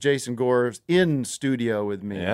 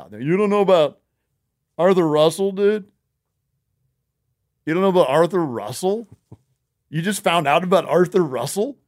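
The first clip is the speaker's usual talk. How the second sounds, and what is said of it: Mocking impression of a fan. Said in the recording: “That's my impression of a Best Show listener. ... It's pretty close.”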